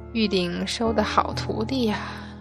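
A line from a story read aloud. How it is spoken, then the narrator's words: Soft sigh. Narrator (Chinese): 轻轻叹息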